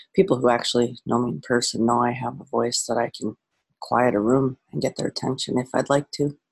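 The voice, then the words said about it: Quiet, near-whispered speech. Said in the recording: “Sounds like I'm whispering in the mornings ... I'm speaking quietly here”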